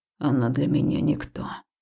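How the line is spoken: Gruff growl. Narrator (Russian): прорычал грубовато он

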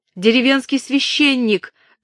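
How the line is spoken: Shouting up to window. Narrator (Russian): крикнула она человеку в окне

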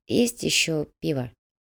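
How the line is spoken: Quiet question. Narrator (Russian): тихо спросила переплетчица

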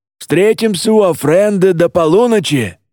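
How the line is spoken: Father shouting after. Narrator (Russian): крикнул отец вслед

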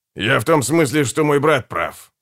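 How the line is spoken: Mumble. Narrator (Russian): пробормотал Гегель

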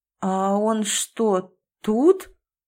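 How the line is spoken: Doubtful drawl. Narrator (Russian): недоверчиво протянула Кира

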